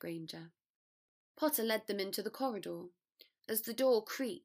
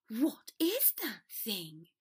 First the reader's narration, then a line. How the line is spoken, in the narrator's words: Draco hissed